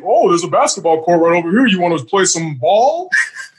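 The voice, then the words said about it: Imitates another person's voice, very proper. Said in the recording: “That was the Miz impression? ... That's how he sounds to me. ... He said it like that, real proper”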